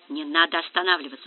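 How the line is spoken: Whispered. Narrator (Russian): шепотом сказал Тенишев

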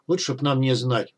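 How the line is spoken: Old man grumbling. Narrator (Russian): буркнул старик

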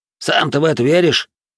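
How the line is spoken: Snorting. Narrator (Russian): фыркнул первый

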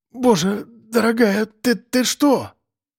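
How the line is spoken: Stammering mumble. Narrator (Russian): пробормотал он, заикаясь

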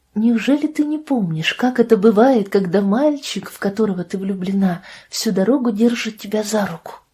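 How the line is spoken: Soft, tender. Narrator (Russian): Голос Лидии звучал тихо и нежно

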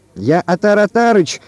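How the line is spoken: Shouting. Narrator (Russian): крикнул он

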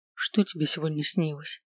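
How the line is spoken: Whispered. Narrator (Russian): прошептал он

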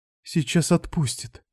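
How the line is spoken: Whispered while wincing. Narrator (Russian): прошептала она, жмурясь

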